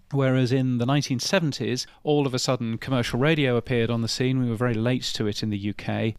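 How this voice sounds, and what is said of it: Aloof British accent. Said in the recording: “I'm a Brit, as you can tell from my ridiculously aloof accent.”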